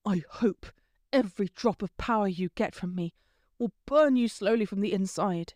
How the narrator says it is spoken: hissed

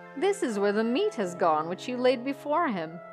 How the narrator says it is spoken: said Olaf with his loud laugh

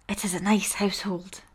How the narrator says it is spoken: he murmured

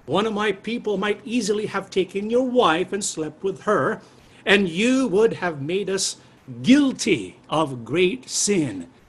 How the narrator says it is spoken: Abimelech exclaimed

